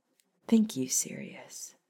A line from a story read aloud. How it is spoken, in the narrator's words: Hermione gently murmured